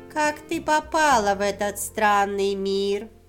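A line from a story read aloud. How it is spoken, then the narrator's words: Creaky voice, witch. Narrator (Russian): произнесла скрипучим голосом ведьма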